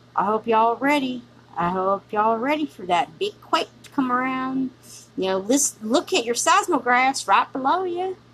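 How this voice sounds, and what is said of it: Country accent. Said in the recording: “talking country ... I talk country because I want to talk country. I love my country accent.”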